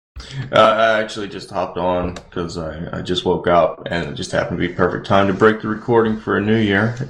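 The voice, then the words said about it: Groggy just-woke-up voice. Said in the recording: “didn't actually recognize your voice ... just rolling out of bed voice ... just the not much sleep”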